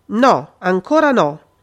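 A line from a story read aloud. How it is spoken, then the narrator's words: Anxious voice. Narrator (Italian): disse De Vincenzi con voce ansiosa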